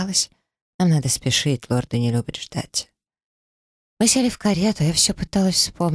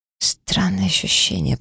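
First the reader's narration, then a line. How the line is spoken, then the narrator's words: Absent-minded mutter. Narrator (Russian): пробормотала в ответ, рассеянно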